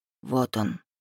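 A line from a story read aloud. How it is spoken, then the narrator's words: Barely audible whisper in ear. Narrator (Russian): едва слышно шепнул Рейф мне на ухо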